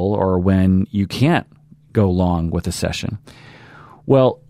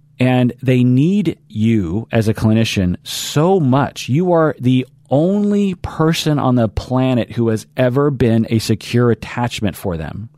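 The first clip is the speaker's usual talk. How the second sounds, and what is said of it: Yelling, raised voice. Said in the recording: “I'm yelling”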